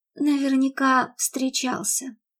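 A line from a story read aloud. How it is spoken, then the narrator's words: Sigh, failed indifference. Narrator (Russian): вздохнула Мередит, безуспешно пытаясь принять безразличный вид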